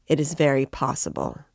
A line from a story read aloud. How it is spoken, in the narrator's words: answered Raskolnikov coldly